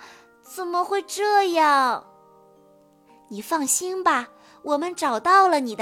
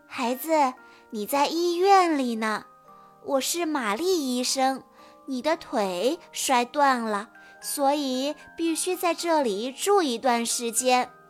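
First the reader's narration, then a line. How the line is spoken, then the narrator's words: Gentle reply. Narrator (Chinese): 一个温柔的声音回答道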